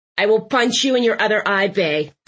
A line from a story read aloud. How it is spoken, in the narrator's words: Thistle barked